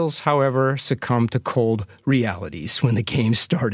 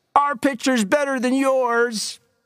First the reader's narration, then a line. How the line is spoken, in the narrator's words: From the Rattlers dugout came shouts